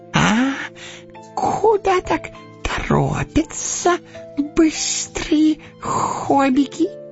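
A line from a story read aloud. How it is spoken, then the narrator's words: Squeak. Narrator (Russian): пискнул он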